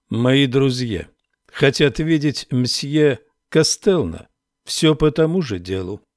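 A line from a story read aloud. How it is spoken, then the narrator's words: Sharp. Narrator (Russian): резко добавил Рекс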